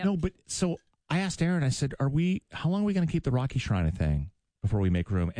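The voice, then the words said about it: Sick, hoarse voice. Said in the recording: “my voice is like this... I had this thing like the last 2 weeks where I just can't”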